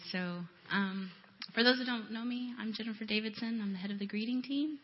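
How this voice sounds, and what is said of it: Voice sounds a little off. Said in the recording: “my voice is kind of funny today”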